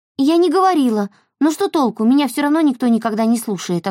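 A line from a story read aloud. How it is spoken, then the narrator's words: Snapping retort. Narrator (Russian): огрызнулась Эльса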